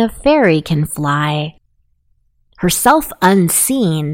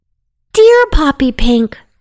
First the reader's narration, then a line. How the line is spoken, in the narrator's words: cried one